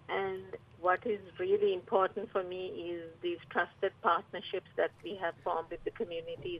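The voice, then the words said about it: Slight foreign accent. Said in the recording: “I noticed a bit of an accent there.”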